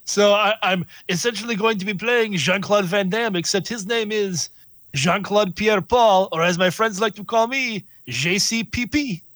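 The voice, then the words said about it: Put-on French accent. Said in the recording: “You're going to speak in a French accent the whole time?”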